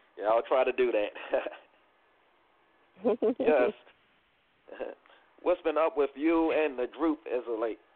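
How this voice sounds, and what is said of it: Hoarse, loud voice. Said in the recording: “I'm yelling. I'm a little hoarse today”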